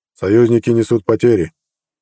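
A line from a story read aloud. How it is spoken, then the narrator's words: Quiet. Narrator (Russian): негромко произнес начальник штаба бригады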